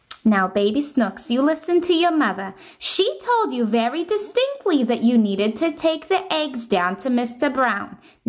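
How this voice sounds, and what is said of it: New Jersey accent mother voice. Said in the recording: “a good mom voice?... New Jersey baby snooks, mom... I like the New Jersey accent for the mother the best... I think the New Jersey one's the best”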